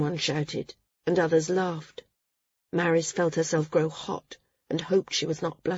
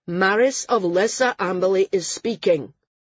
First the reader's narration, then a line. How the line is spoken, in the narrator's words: he said loudly